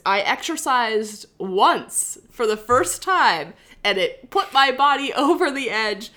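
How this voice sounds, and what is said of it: Nasal, congested voice. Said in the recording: “I'm sounding a little nasally this week ... I've been sick for a week now”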